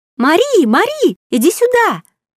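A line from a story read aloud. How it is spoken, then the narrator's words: Shrill voice from upstairs. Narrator (Russian): послышался визгливый голос из глубин второго этажа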